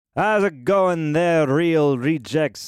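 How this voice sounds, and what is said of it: Put-on unidentified accent. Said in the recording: “I don't know what this accent is.”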